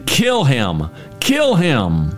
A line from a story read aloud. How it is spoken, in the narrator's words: the crowd shouting